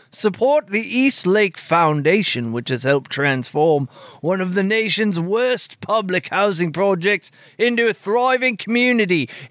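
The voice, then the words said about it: Slips into an English accent. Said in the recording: “It, it became an English accent there at the end.”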